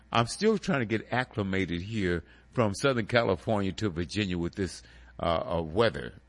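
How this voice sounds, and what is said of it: Congested, stuffed-up voice. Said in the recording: “If I sound a little congested, that's because I am ... So I might sound a little stuffed up.”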